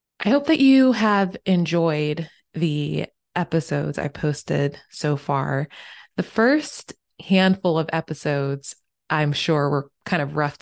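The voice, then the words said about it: Hoarse, croaky voice. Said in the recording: “please excuse the frogs in in my my voice”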